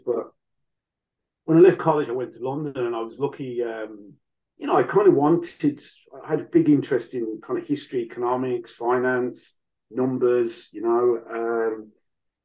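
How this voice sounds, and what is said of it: Mixed Irish and Birmingham accent. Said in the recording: “despite the accent... my dad's from Waterford, mum's from Kildare. I was born in Birmingham... I never quite lost that bit of Brum in the accent, and the accent's just become more mongrel over the years”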